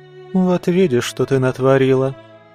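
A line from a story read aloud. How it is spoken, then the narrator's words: Martyred sigh. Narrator (Russian): мученически вздохнула матресса Ардо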